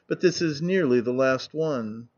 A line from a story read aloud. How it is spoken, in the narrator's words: she would add with a sigh